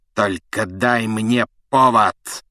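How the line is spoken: Hiss. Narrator (Russian): прошипел Снег

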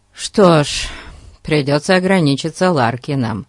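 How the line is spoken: Sigh. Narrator (Russian): вздохнул Фати

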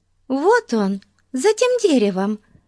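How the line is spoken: Exclamation. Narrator (Russian): воскликнула Бетси

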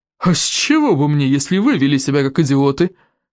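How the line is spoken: Snorting. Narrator (Russian): фыркнул Сморкала

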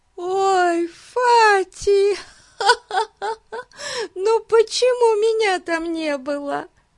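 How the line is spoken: Moaning. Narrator (Russian): стонала Дейзи

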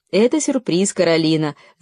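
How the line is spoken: Laughing. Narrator (Russian): засмеялся папа

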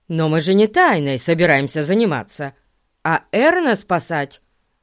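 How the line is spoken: Indignant declaration. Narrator (Russian): возмущенно заявил Пип

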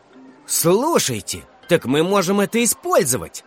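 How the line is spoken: Exclamation. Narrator (Russian): воскликнул Эдик Ушаков

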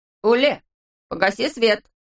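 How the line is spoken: Shout. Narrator (Russian): крикнул Ласси

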